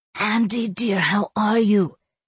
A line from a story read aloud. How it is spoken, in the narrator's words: Sebastian breathed into the phone